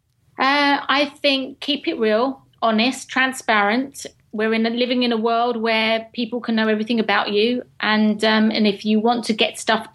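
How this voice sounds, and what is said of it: British English accent. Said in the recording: “A British accent, a proper English accent.”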